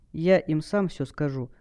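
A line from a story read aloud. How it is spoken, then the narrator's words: Calm lie. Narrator (Russian): спокойно солгал Сайсиен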